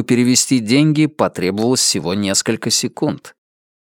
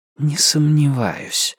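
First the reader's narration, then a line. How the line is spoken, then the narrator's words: Muttered reply. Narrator (Russian): буркнул в ответ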